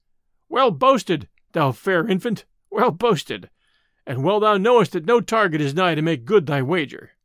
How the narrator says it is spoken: all laughed aloud, and one said

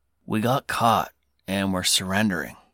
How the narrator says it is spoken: Holland mutters

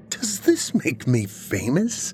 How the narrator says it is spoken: He laughed

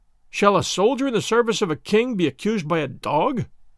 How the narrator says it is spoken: he cried

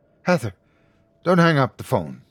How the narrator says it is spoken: he pleaded

